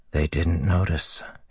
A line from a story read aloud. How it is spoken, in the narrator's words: he whispered